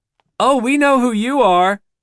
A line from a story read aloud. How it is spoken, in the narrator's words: the wife laughs, girlishly, thrilled